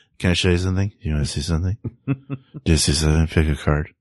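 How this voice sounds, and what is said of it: Mumbling, junkie-like imitated voice. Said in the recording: “My impression of him ... like a junkie ... sort of mumbling to themselves”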